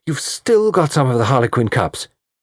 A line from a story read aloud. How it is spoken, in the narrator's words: exclaimed